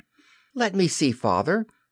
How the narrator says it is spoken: Michael begged eagerly

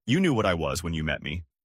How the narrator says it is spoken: she laughed and said

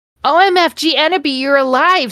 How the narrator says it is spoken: screamed Vampire

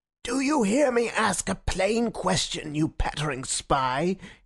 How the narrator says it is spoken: he shrieked in a high, crazy voice

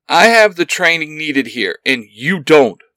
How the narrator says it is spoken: Ben yells

